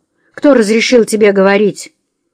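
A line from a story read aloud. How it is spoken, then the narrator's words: Angry address. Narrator (Russian): зло обратился к миссис Френч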